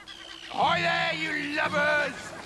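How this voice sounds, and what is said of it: Imitates a pirate captain's voice. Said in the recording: “my best imitation of their captain”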